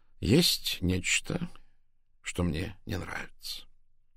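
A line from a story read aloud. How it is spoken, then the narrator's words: Slow deliberate speech. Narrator (Russian): медленно произнес сыщик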